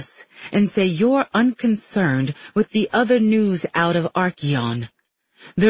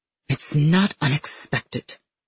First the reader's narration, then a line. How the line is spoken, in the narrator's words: he mutters